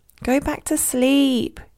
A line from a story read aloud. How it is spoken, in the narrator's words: moaned